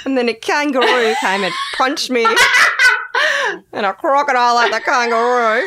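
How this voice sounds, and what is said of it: Impressive put-on Australian accent. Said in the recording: “That's a good accent. That's quite impressive. ... I just can't imagine anything more down under.”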